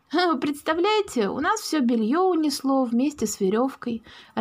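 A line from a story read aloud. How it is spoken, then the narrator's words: Joyful greeting, mother. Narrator (Russian): радостно встретила мама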